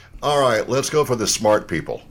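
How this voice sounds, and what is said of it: Sarcastic tone. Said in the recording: “That was sarcasm.”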